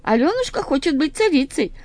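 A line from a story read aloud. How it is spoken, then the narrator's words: Cheerful ringing voices. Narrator (Russian): весело звенели полевые колокольчики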